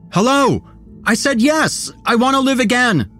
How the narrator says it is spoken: nearly shouted

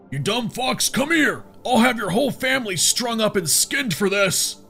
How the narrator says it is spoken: Benito raved at the top of his lungs

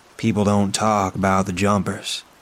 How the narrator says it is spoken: says calmly

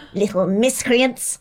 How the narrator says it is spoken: he spat

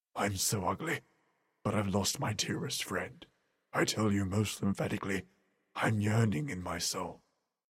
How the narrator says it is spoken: he seemed so sympathetic, and we saw two tears descend as he murmured

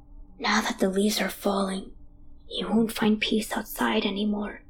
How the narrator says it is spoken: he whispers

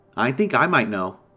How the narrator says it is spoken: I replied

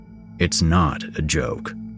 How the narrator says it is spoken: Eddie said, his voice suddenly serious

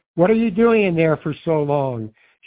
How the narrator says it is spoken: she'd yell through the door

